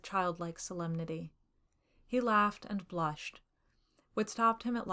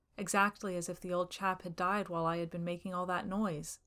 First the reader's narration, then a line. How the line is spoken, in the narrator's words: he said